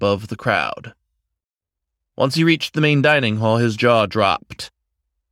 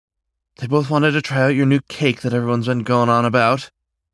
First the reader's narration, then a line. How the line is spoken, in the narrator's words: the older woman said shakily